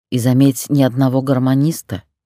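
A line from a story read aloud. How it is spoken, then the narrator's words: Grumbled. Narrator (Russian): проворчала Лида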